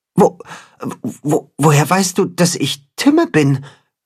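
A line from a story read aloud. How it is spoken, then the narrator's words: Stuttering creature. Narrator (German): stottert das Katzenhuhn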